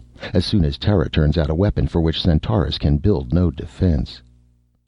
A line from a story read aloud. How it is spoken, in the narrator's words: Reinhardt stated coldly